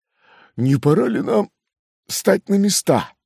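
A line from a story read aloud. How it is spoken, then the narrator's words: Timid question. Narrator (Russian): спросил робко Шарбанель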